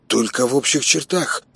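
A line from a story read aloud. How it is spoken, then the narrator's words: Mumbling. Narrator (Russian): промямлил Костик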